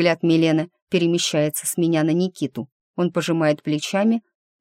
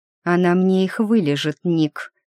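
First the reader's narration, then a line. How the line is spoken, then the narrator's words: Through gritted teeth. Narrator (Russian): цедит Милена сквозь зубы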